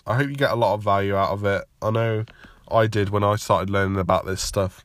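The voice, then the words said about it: Congested, slightly rough voice. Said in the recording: “I've just got a really tickly throat... I'm just like full of cold, and you could probably hear it in my voice a little bit”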